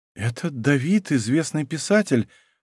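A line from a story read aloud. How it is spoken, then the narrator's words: Babbling murmur. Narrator (Russian): пролепетала Лара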